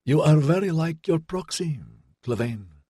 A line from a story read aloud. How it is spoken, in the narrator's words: said in that quiet rasp